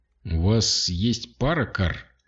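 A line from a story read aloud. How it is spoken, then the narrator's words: Hoarse voice. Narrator (Russian): хриплым голосом спросил Каласи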